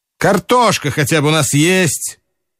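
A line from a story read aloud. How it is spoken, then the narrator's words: Sudden and loud. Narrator (Russian): неожиданно и громко проговорил Жадов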